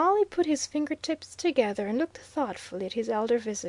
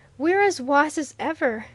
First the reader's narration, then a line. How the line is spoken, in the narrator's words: he exclaimed